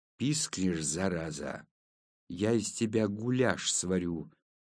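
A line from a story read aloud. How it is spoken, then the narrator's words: Fierce hiss through bared teeth. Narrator (Russian): прошипел я, свирепо скаля зубы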